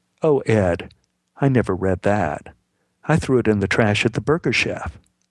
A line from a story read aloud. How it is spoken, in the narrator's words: Beth said very evenly